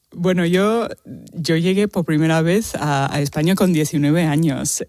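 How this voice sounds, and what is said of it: Australian accent speaking Spanish. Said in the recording (Spanish): “tienes un acento australiano ... el acento no lo voy a quitar nunca”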